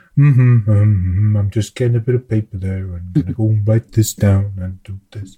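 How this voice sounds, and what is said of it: Yogi Bear cartoon voice impression. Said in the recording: “I was doing Yogi Bear, I think. ... I thought it was some Simpson in there. ... A little Homer.”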